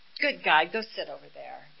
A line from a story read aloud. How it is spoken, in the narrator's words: laugh and just go